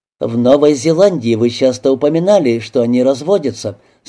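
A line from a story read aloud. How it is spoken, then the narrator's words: Plain. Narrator (Russian): сказала Робин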